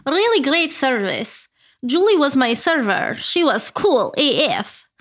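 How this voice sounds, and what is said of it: Put-on Russian accent. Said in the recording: “Can you do a Russian accent?... Oh, yes.”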